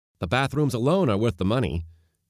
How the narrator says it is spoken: was saying cheerfully

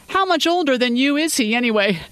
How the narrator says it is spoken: asked, laughing as he did

